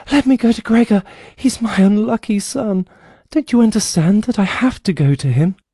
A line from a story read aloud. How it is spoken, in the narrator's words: when she then cried